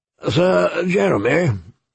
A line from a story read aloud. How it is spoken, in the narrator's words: the old bear said gruffly